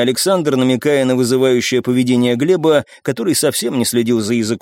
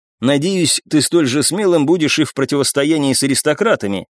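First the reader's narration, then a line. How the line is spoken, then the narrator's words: Plain. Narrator (Russian): ответил ему я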